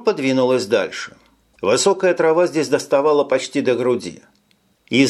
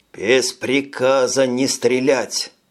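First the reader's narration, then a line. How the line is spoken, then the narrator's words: Hissing. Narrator (Russian): прошипел Джим по адресу стажеров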